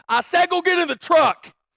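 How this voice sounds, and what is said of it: Stronger, forceful voice. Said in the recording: “in an even stronger voice,”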